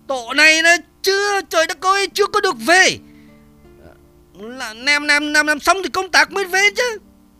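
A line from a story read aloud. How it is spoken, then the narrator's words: Loud angry yell. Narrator (Vietnamese): Nhìn thấy đống đạn mới có vơi phân nửa thì hắn trợn mắt hét to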